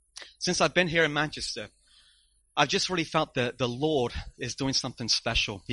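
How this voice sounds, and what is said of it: Mixed English-American accent. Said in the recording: “I'm really a displaced English person. And my accent is very mixed up, very confusing.”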